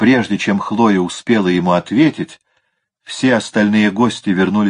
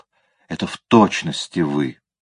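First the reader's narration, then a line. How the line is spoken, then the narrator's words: Muttered. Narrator (Russian): Он пробормотал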